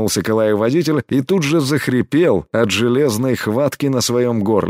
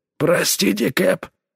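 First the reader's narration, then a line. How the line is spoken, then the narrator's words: Strained wheeze. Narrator (Russian): с трудом прохрипел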